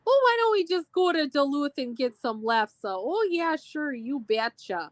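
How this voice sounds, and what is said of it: Exaggerated Minnesota accent. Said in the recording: “I will say the typical Minnesota. I'm going to do it just for laughs.”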